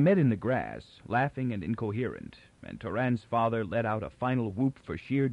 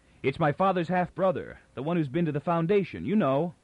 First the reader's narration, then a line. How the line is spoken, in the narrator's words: Toran cried over his shoulder